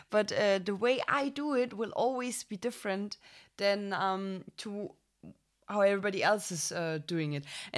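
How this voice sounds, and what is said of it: German-accented English. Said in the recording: “the same stupid German accent”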